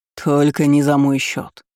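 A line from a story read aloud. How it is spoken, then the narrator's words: Snort. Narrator (Russian): хмыкнул Байт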